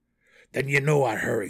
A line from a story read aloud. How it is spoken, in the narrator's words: snarled the Duergar